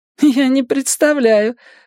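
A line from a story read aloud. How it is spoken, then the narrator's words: Small woman laughing. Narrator (Russian): засмеялась маленькая блондинка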